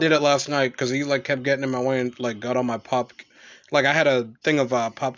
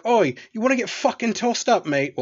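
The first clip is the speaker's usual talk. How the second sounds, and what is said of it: Put-on British accent. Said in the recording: “I do talk to him in a British accent quite a bit ... use a British accent”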